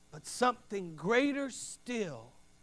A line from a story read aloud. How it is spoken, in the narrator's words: Elias said